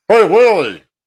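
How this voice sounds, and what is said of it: Imitates the Alf character voice. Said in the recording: “That was a pretty good Alf impression.”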